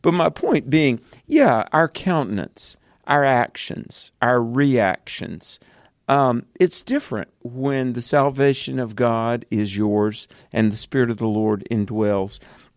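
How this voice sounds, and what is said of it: American Southern accent. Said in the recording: “you guys surely do have southern accents. And I said, well, that is true. We're from the South.”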